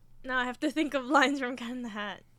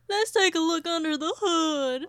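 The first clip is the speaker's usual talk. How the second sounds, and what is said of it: Cartoon character's hillbilly-style voice. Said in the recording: “Cat in the Hat doing an impression of a hillbilly”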